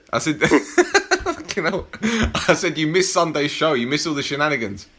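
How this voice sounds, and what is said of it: Put-on German accent. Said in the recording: “I love your German accent.”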